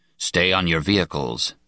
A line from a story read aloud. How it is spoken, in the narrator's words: Speaker ordered in a low voice